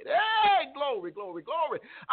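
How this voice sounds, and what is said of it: Shouting preacher. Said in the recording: “I'm not shouting so you can videotape me. I'm not shouting so I can get the next viral video. I'm shouting”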